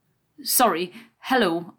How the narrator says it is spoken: I said, trying not to stutter over my words

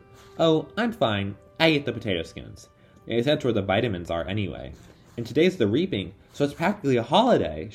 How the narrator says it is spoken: she said cheerfully

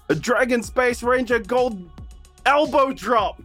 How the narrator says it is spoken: I'm just going to scream

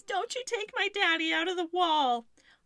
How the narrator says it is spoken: Louise cries

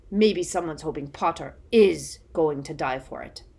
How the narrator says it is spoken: said Moody, with the merest trace of a growl

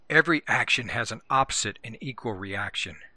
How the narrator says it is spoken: Leroy whispered

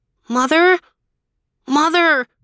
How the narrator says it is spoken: called out

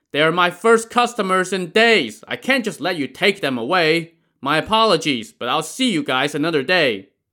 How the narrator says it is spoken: the boatman shouted back

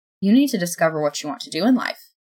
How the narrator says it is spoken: Death said calmly

